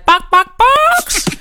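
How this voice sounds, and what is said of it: Imitates a chicken clucking. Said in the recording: “Great chicken impression”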